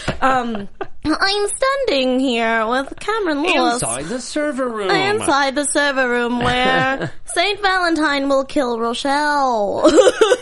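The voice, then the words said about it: Cartoon TV news reporter impression. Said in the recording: “I'm talking like Trisha Takanawa from Family Guy ... That's a good impression. ... That's very good.”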